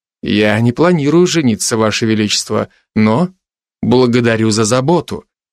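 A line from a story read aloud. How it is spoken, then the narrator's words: Cold. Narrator (Russian): сказал я холодно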